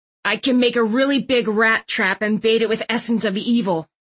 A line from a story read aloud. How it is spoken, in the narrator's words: Thistle growled